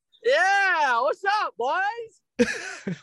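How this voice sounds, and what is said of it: Yelling loudly. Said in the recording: “Why are you yelling? ... It's a loud car ride”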